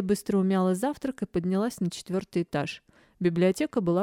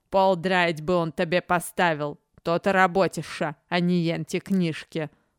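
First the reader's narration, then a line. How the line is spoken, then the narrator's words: Muttered under breath. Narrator (Russian): Буркнула под нос Бакота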